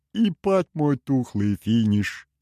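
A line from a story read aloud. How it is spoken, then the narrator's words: Amazed drawl. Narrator (Russian): изумленно протянул Шо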